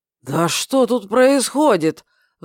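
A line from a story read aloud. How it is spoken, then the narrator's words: Drunken full-force roar. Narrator (Russian): Взревел он во всю пьяную мощь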